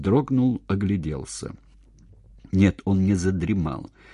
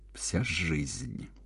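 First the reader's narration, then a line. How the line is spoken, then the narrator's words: Through clenched teeth. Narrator (Russian): сквозь зубы сказал он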